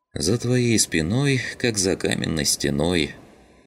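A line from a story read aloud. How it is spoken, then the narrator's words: Sighed. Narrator (Russian): вздохнула Родька в адрес Шума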